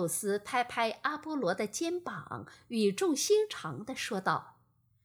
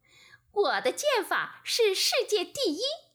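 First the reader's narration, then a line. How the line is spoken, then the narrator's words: Very happy. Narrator (Chinese): 阿波罗…十分高兴，说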